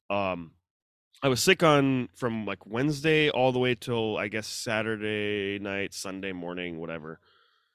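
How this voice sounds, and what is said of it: Congested, stuffy-nosed voice. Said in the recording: “you could probably tell I sound a little congested”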